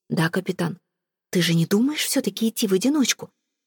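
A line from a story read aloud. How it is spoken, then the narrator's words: Hissing. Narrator (Russian): прошипела Ивейн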